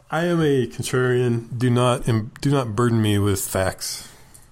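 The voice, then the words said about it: Mocking put-on character voice. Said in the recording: “my impersonation of my woke voice”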